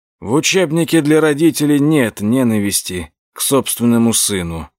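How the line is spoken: Sighed. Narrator (Russian): вздохнул Эдгар

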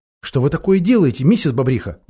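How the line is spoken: Exclaiming. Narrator (Russian): воскликнула Сьюзен

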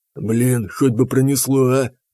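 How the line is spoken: Whisper. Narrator (Russian): прошептал Танк

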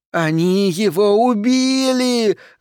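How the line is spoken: Woman shrieking. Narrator (Russian): завизжала какая-то женщина

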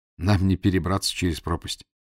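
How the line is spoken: Sigh. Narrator (Russian): вздохнул я

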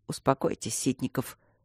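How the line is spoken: Cold. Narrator (Russian): холодно отозвался Трот

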